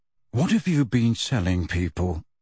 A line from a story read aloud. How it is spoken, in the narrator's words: he said in a low voice